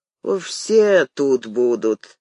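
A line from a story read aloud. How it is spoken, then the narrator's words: Gloomy tone. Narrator (Russian): мрачно кивнул Виктор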